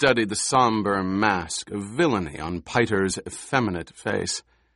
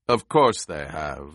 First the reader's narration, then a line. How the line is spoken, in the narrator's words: the Baron rumbled